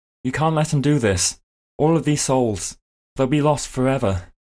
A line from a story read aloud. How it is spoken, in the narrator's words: Anno says, Anno shouts out suddenly